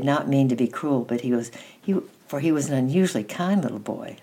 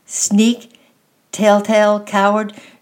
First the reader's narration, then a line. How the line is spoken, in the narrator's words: shouted Lucien